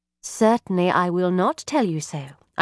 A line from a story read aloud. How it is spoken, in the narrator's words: I replied sweetly